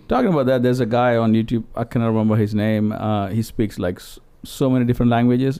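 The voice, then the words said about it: Non-native English accent. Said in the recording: “I blame it on my accent ... English is not my first language”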